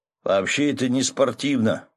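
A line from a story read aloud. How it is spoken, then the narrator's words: Grumbling fisherman. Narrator (Russian): проворчал рыбак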